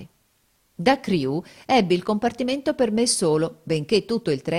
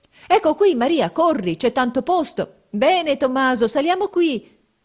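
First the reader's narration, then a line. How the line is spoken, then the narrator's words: Crowd shouting. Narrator (Italian): si gridava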